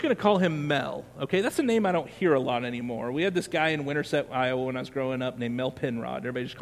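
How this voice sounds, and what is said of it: Usual voice. Nothing is said of it.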